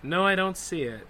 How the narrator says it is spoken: sigh and said in my most seductive voice

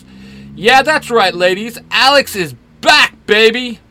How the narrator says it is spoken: yells

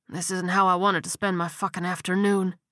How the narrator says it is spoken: he muttered

